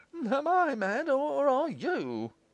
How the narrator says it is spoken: cried Morris

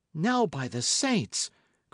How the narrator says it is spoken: cried Richard

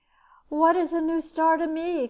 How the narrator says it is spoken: cried the weeping woman

